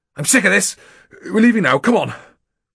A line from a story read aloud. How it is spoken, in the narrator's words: barked